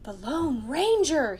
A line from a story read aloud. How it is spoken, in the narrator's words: breathed